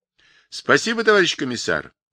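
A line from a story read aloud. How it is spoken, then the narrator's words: Cheerful reply. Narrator (Russian): весело ответил Павлик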